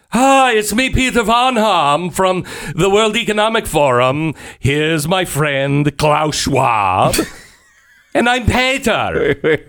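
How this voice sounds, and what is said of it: Made-up foreign accent. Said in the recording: “What accent is this exactly? ... I don't know exactly. Just making it up as I go. ... his accent”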